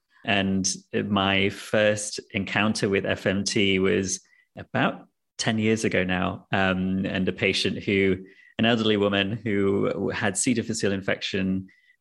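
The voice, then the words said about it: Noticeable accent. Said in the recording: “as you could probably tell by the accent, trained in the UK”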